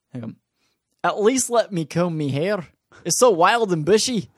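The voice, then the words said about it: Put-on Scottish accent, Groundskeeper Willie. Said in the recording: “this is my Scottish ... That's my Scottish ... That's pretty good ... That's Scottish ... That's Groundskeeper”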